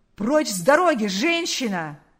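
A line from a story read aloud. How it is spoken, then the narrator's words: Shout. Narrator (Russian): крикнул полицейский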